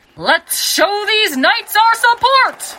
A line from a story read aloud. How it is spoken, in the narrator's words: yelled the announcer